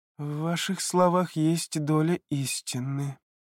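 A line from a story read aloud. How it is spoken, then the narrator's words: Evasive drawl. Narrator (Russian): протянул он, лишь бы сменить тему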